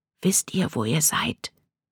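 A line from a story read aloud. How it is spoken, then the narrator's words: Whisper. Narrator (German): flüsterte er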